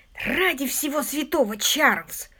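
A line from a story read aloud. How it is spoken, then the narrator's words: Furious hiss. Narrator (Russian): прошипел Питер, разъяренный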